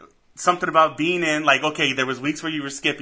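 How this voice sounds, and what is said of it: Usual voice. Nothing is said of it.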